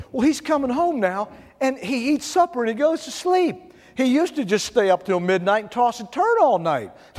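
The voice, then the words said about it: Imitated Mississippi woman's accent. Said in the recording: “She had a Mississippi accent too. I try to copy it, but I don't copy it well.”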